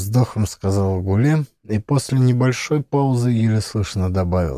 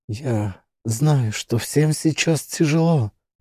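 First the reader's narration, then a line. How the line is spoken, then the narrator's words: Trembling voice. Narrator (Russian): дрожащим голосом сказала Гуле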